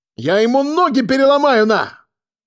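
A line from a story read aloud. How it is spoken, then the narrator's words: Shouting. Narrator (Russian): кричал Нурик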